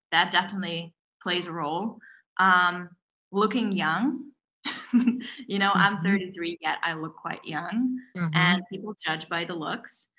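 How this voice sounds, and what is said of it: Non-native English accent. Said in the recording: “being an immigrant woman, where English is your second language ... still, you can hear my accent.”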